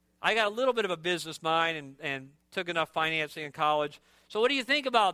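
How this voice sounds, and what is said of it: Usual voice. Nothing is said of it.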